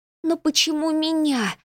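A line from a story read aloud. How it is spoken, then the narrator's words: Moaned. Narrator (Russian): простонала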